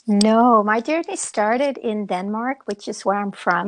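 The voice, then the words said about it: Beautiful foreign accent. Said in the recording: “Your accent is beautiful.”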